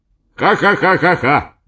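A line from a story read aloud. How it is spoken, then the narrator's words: Loud laughter. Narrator (Russian): громко засмеялся Эдисон Ксенофонтович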